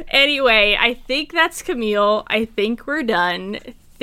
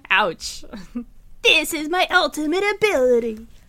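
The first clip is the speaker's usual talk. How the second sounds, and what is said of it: Imitates a video game character's voice. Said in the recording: “That was my Ezreal impression.”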